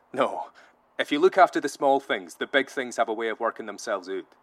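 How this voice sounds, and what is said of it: Scottish accent. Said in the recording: “your accent just makes gibberish sound pretty”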